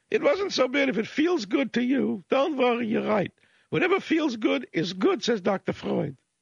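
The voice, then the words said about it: Mock Viennese Freudian accent. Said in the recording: “I'm using a fake, you know, Freudian, mock Freudian accent for effect”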